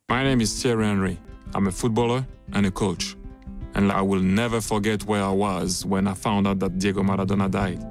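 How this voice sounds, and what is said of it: Nice foreign accent in English. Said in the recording (Dutch): “Mooi accent toch van die Thierry Henry. ... ik hou van zijn accentjes”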